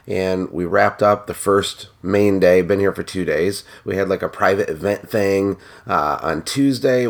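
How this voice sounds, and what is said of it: Scratchy voice. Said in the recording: “my voice is a little scratchy”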